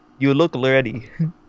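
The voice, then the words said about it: Clumsy put-on accent, sounds Russian. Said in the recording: “that sounds Russian ... I screwed it up. I'm horrible with accents.”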